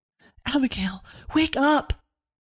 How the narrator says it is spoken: Severn whispering as loudly as she could

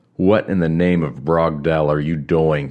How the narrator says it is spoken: Krell roared

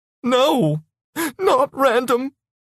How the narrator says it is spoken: she said, sobbing

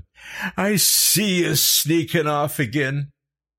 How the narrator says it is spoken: he screamed after them

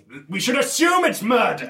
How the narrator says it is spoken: say extremely loudly

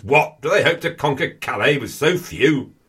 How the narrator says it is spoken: bellows

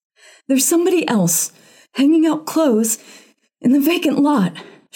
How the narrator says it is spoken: she gasped

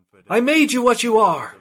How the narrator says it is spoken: screamed

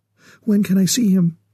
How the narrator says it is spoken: she asked eagerly

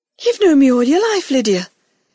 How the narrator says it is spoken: Grandmother said earnestly

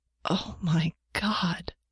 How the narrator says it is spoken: Janet gasped

